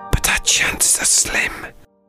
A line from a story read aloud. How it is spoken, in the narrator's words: whispered Robbie